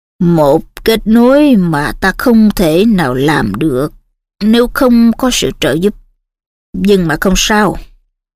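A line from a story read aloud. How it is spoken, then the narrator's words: Sighing. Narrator (Vietnamese): Cụ Dumbledore thở dài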